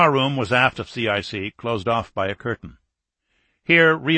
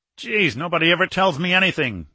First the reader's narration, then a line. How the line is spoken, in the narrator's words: growled a young lieutenant commander